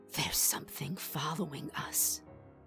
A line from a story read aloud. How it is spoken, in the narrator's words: Sammy had whispered in my ear, her breath hot, her voice hoarse with terror